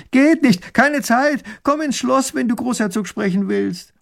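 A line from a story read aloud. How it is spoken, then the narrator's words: Calling back. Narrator (German): Erich ruft zurück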